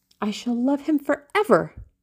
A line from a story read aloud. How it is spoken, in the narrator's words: she cried